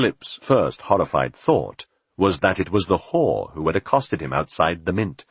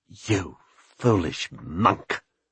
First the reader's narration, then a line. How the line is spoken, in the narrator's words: she spat